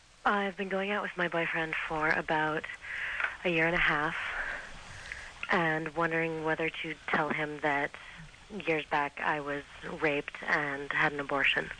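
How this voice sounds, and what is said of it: Sexy, smoky female voice. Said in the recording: “You have a sexy voice ... I've been smoking for too long.”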